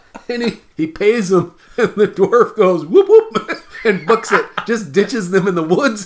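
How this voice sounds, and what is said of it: Usual voice. Nothing is said of it.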